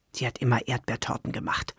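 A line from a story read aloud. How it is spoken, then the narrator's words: Murmured. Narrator (German): murmelte Esther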